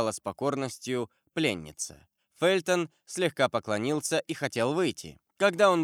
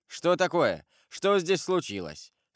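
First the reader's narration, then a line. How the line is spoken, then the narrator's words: Mocking. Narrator (Russian): сказал он насмешливым тоном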